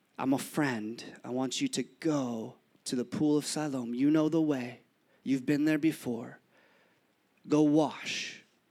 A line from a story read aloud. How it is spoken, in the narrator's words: he whispers in his ears